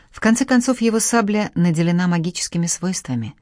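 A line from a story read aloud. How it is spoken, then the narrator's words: Plain. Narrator (Russian): так сказал Сулейман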